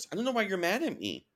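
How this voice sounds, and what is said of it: Mocking baby voice. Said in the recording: “She does in that baby voice.”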